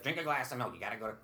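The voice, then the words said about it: Imitates another person's voice. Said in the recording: “My mom doesn't sound anything like that, folks... I can't help but do that voice.”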